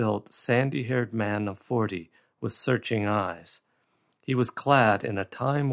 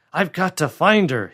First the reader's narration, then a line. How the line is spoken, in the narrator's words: he cried